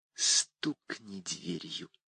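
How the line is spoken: Barely audible whisper. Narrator (Russian): шепотом, я едва расслышал, добавила

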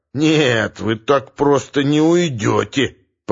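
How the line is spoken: Drunken slurred hasty growl. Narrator (Russian): прорычал Леший с пьяной заплетающейся поспешностью

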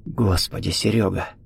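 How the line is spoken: Chilled whisper. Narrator (Russian): похолодев, прошептал Виктор

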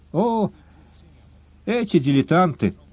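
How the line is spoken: Sighed. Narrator (Russian): вздохнул Гаудин

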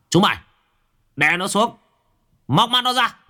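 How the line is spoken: Harsh shout. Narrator (Vietnamese): Phong Mặt Sẹo liền quát

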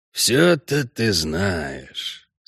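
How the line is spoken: Annoyed mutter, gang leader. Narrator (Russian): с досадой пробормотал главарь

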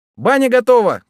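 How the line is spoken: Shouted from the yard. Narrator (Russian): крикнул со двора полпуда

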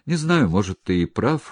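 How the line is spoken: Sighing. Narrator (Russian): вздохнул Громов

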